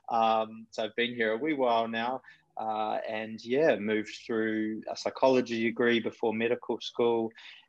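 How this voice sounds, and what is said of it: Mixed New Zealand accent. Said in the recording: “my terrible, mixed up, weird accent that I'm originally from Kiwi shores”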